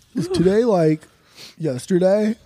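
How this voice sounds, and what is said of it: Dopey surfer-style imitation of another's voice. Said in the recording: “You sound like an even dumber Tom DeLonge. ... No, you sounded too surfer, though. ... You need more of the Poway accent.”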